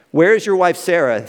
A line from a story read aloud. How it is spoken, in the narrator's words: asked